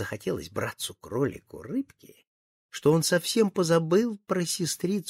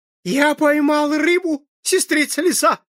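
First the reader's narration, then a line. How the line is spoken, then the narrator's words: Shouting. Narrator (Russian): закричал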